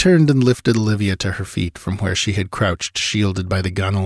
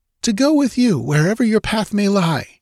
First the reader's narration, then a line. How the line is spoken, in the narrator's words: she cried